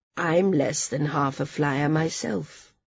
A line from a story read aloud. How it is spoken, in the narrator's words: the older woman said quietly